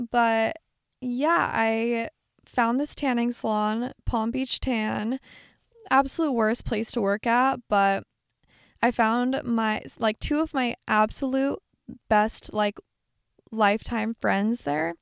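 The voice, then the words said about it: Raspy voice, giving out. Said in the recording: “my voice is sounding raspy. I've been like talking a lot and I've been really like excited today. So my voice is kind of giving out.”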